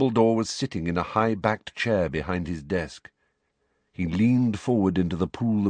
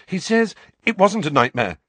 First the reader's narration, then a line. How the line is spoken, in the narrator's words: said Harry quickly